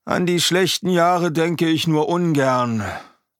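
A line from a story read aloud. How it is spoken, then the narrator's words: Sighing. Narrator (German): seufzt Bauernschädel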